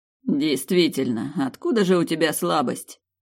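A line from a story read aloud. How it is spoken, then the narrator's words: Scoffing snort. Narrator (Russian): хмыкнул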